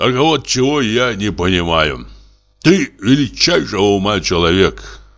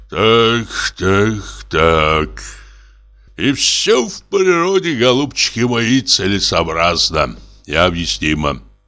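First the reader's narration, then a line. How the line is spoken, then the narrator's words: Sighing. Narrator (Russian): вздохнул Самойленко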